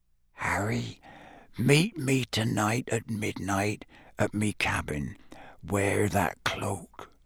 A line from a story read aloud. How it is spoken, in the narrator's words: Hagrid said in a whisper so low that only Harry could hear it